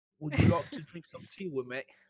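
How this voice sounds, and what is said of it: Put-on English accent. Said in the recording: “Some English accent.”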